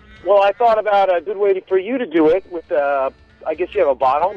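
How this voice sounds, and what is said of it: Somewhat fake put-on accent. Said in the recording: “your accent is a little fake”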